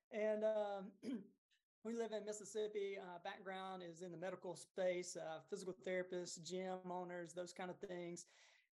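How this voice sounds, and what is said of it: Southern US accent. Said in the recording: “you may can hear the Southern accent. ... I try to cover it up”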